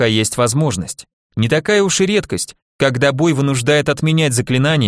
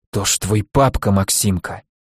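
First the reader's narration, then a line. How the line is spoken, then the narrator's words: Hoarse wheeze. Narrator (Russian): просипел Николай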